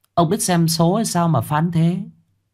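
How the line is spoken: Smiling reply. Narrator (Vietnamese): Bà Hoán mỉm cười đáp

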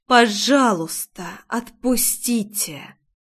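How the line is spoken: Barely restrained fury, through teeth. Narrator (Russian): Едва сдерживая ярость, процедила

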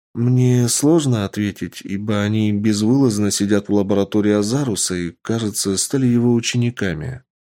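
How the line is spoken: Calm, tired. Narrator (Russian): спокойно ответила уставшая девушка

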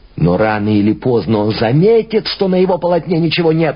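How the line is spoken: Exclaiming. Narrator (Russian): воскликнул Пуссен

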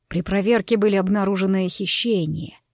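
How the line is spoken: Quiet reply. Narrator (Russian): тихо отозвался Савелл

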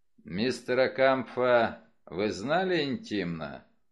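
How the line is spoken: Dry. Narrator (Russian): сухо спросил Вульф

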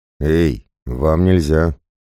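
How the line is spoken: Uncertain hoarse rasp. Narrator (Russian): неуверенно прохрипел Громила, увидев два десятка готовых к сражению бойцов

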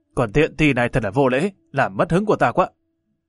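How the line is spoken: Harsh scolding shout. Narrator (Vietnamese): giọng dè dè ban nãy lại nổi lên quát tháo

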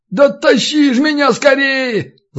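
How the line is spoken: Desperate yell. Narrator (Russian): завопил, увидев подмогу

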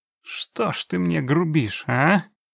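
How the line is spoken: Reproachful drawl. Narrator (Russian): укоризненно протянул он

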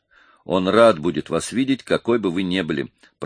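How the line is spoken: Mumble. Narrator (Russian): пробормотал

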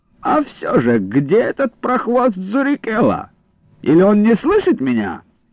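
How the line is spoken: Loud question. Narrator (Russian): громко спросил

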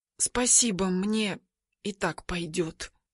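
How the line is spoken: Barely audible. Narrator (Russian): еле слышно отвечаю

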